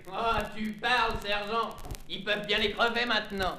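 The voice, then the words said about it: Urban working-class French accent. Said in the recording (French): “Mathieu a les façons et l'accent d'un ouvrier des villes”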